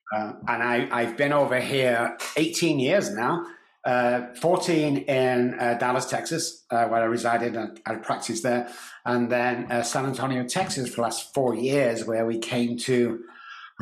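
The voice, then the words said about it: English Manchester accent. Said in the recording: “I love your accent, and I would guess it totally wrong. I would say Australia ... I'm from Manchester in England.”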